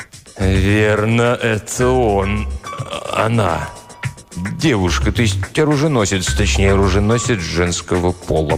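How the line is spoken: Mumbling. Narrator (Russian): промямлил Тристовер

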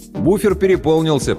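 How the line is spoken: Loud joking. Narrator (Russian): пошутил я довольно громко

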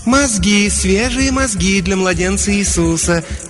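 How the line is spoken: Soft contralto coo. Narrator (Russian): мягким контральто проворковала ферма

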